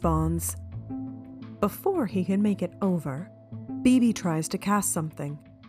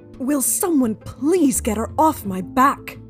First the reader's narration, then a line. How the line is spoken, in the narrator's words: Bane shouts